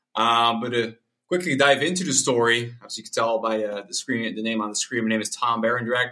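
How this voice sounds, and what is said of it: American-sounding English accent. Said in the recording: “I do may sound American, but I'm not.”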